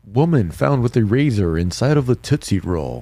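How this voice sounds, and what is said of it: Announcer-style radio voice. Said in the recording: “That's a good radio voice.”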